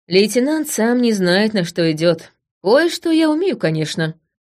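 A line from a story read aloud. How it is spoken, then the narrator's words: Thoughtful. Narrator (Russian): сказала я задумчиво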